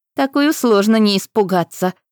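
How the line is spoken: Laughing group. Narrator (Russian): засмеялись Титаниды

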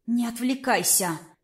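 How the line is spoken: Hissed thought. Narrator (Russian): мысленно процедила

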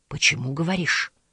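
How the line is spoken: Quiet, barely moving lips. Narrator (Russian): сказал Исана тихо, почти не разжимая губ

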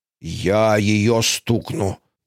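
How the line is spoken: Hissed through clenched teeth. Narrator (Russian): процедила тетя Агата сквозь зубы

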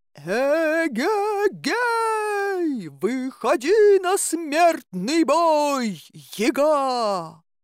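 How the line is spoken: Loud heroic shout. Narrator (Russian): Крикнул громко, почти по-богатырски

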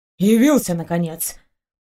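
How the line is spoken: Grumble. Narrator (Russian): проворчал следователь

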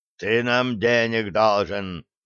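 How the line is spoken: Growl. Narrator (Russian): рыкнул второй

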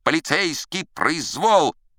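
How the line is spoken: Loud shrieking. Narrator (Russian): И даже красавица, забыв о своей ненависти, Крабоку визжала, заглушая Тока

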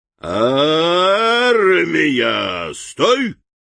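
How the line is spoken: Deafening bark. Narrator (Russian): оглушительно рявкнул Лан-Пирот

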